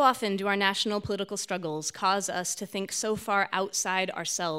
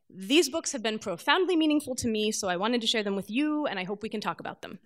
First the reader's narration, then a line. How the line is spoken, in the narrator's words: quickly, before I could chicken out